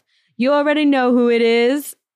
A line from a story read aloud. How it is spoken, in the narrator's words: a not-so-famous rapper yells